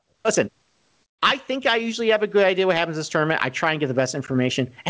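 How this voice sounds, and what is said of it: Nasal Rochester accent. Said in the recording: “my nasally Rochester accent”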